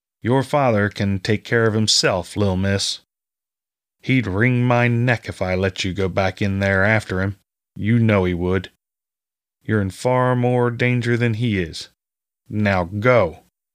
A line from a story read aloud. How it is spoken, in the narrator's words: said firmly, his tone leaving no room for argument